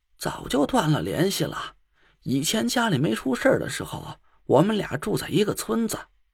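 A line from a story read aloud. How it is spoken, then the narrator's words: Gloomy sighing woman. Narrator (Chinese): 叶妈黯然的叹了口气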